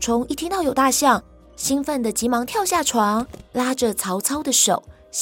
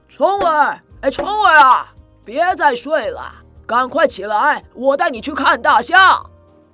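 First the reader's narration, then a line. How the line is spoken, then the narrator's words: Loud calling. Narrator (Chinese): 曹操在门外大声地喊着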